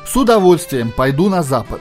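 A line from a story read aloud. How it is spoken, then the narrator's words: Plain. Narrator (Russian): сказал Джордж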